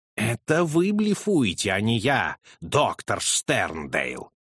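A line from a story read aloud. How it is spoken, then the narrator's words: Menacing. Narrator (Russian): грозно сказал Холмс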